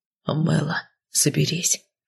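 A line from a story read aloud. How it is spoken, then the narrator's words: Quiet whisper. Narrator (Russian): тихо шепнул Кайл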